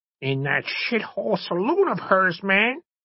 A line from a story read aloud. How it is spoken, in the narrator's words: Bludgeon mumbled